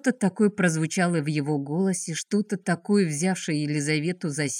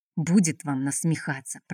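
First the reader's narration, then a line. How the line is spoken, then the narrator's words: Offended mumbling. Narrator (Russian): пробормотал обиженно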